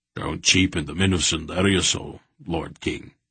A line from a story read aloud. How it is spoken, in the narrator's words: he said in a firm voice